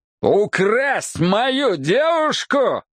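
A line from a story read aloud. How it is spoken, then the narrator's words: Roar. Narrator (Russian): взревел я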